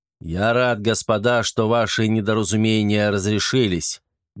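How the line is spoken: Loud. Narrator (Russian): громко произнес маршал

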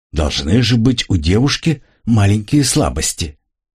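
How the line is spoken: Mutter. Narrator (Russian): Энака пробормотала

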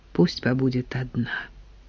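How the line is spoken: Undertone. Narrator (Russian): вполголоса сказала Нина Порфирьевна Коле

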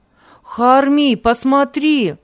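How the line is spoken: Loud exclamation. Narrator (Russian): громко воскликнул Ави

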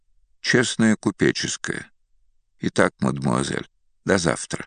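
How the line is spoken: Even voice. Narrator (Russian): Ровным голосом произнес

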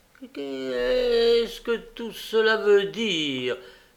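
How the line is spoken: Girl's involuntary exclamation. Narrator (French): s'écria involontairement la jeune fille

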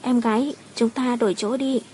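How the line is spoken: Soft sweet murmur. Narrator (Vietnamese): Tôn Linh Linh dịu dàng thỏ thẻ nói

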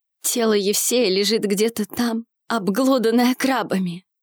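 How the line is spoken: Trembling, holding back tears. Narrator (Russian): Дрожащим голосом произнес Арсений, едва сдерживая слезы

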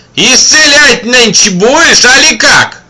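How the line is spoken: Shout from a crowd. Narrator (Russian): Из толпы крикнули

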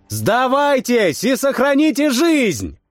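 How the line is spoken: Shouting as loud as possible. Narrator (Russian): крикнул я как можно громче

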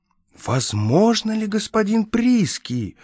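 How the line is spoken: Exclaimed, impressed. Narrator (Russian): воскликнул Владимир

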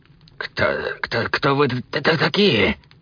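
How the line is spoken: Slow hoarse wheeze. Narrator (Russian): Медленно просипела она

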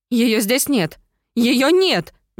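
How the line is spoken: Frantic screaming. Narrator (Russian): Неистово завопила

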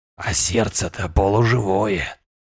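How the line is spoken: Creaky whisper. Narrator (Russian): послышался скрипящий шепот

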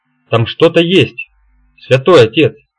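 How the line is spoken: Assertive knowing tone. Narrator (Russian): утверждающим тоном спросил я, уже зная ответ

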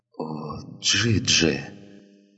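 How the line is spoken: Pained whisper. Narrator (Russian): прошептал он, и боль в его голосе

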